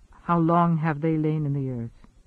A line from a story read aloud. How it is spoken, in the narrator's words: Guest asked softly